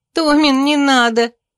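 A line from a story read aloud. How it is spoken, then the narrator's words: Sister moaning, choking with laughter. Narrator (Russian): простонала сестра, захлебываясь от смеха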